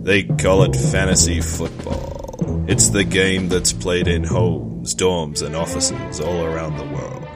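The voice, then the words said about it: Imitates an NFL Films promo narrator. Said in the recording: “This is my impression of the DNO promo on NFL Films.”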